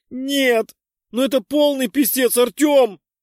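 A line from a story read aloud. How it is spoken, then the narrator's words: Wailing. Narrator (Russian): взвыла я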